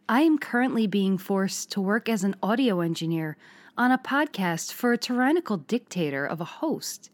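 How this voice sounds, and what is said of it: Put-on Hudson Valley accent. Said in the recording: “put on the Hudson Valley voice”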